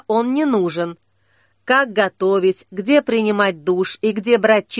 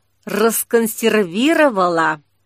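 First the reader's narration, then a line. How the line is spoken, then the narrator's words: Near hiss. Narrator (Russian): почти прошипел Саблезуб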